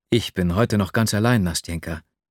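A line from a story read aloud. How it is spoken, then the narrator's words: Plain. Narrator (German): sagte ich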